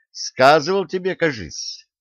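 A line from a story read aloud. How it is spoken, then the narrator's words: Thoughtful. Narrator (Russian): задумчиво продолжил он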